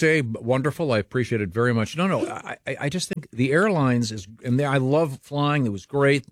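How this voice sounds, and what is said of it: Usual voice. Nothing is said of it.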